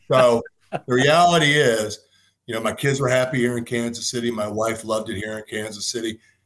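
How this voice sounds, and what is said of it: Slightly congested, stuffy voice. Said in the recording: “I have a little bit of a cold here or an allergy”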